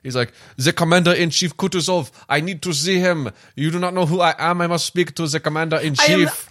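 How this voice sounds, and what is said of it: Put-on German accent. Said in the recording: “I am speaking with an accent. ... I am German ... I am German, Austrian, German.”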